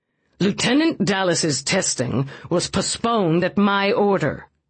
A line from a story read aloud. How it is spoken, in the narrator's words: Whitney said with snarling fury